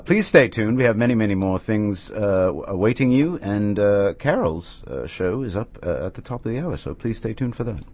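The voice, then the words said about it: Fake, overly BBC British accent. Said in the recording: “my terrible British accent, which I feel is possibly too BBC or very, very fake”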